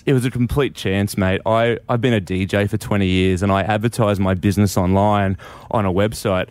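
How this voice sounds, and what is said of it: Nasal Australian accent. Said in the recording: “I actually am a true blue Aussie from Brisbane ... we're all nasally ... the Aussiness in your voice”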